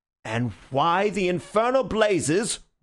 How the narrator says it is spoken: roared the other

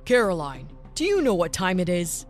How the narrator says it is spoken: Menacingly asked the father

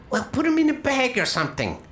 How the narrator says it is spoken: she shouts

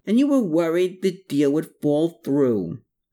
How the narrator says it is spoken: exclaimed

